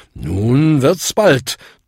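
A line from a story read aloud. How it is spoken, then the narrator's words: Thundering. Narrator (German): donnerte Bung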